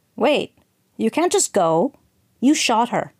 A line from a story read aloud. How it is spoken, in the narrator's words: Marianne snapped